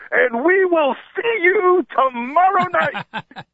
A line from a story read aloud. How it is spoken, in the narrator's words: As soon as Jason Worth hit the home run, he yelled